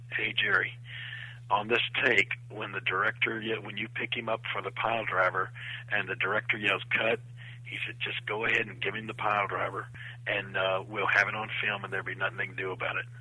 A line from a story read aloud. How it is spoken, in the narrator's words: Bob Zamuda kind of under his breath says